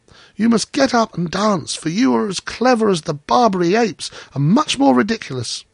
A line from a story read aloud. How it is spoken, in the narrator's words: cried the children